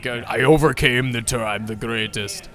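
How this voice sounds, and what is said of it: Imitates another person's voice. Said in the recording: “That was my best accent of his.”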